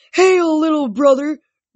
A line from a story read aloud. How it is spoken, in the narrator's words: Briars bellowed